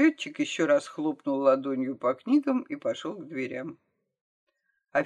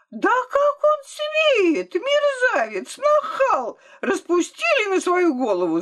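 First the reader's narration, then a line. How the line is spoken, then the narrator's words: Shrill screech. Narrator (Russian): завизжала докторша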